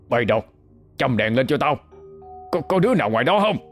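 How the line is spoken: Shouting. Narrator (Vietnamese): Cậu Hai quát lên

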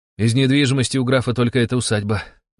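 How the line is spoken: Sighing. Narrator (Russian): вздохнул тайник

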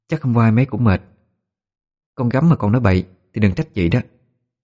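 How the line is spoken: Disappointed, sighing. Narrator (Vietnamese): Liễu Nhan nói đỡ cho Liễu Thi, nhưng giọng nói không che được sự thất vọng, thở dài

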